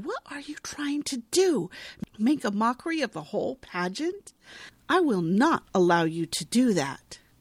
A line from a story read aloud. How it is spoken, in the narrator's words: her mom hisses at her